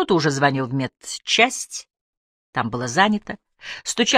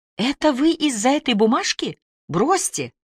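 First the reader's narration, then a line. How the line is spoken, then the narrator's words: Exclamation. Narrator (Russian): Элла Денисова воскликнула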